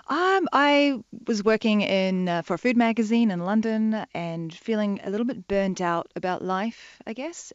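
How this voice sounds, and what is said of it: Mixed New Zealand and London accent. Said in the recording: “New Zealand. ... And then London, yeah. And so my accent's all over the place.”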